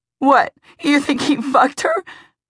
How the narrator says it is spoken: Emmy laughed mirthlessly

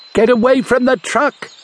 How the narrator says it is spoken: he shouted

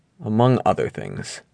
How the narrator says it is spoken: I murmured

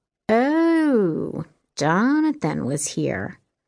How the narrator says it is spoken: Jess echoed in a teasing voice

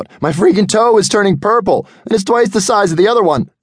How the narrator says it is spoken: He screamed out

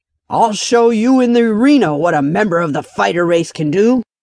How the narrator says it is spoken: he growled out fiercely

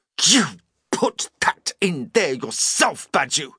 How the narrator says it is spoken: snarled Donich accusingly

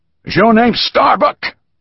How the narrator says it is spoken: asked loudly

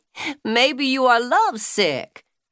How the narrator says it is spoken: Trixie laughed

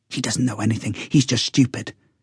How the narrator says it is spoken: he whispered to me

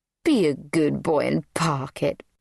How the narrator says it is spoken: purred Pamela

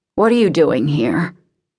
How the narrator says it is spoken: He could hear the snarl in his voice and regretted its sharpness

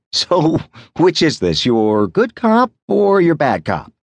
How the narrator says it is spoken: laughing too

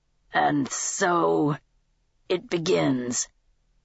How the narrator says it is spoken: he muttered, almost to himself

